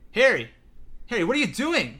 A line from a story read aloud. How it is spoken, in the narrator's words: cried Hermione